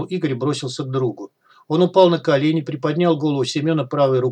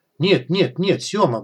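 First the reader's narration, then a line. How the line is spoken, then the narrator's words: Muttering. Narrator (Russian): бормотал Игорь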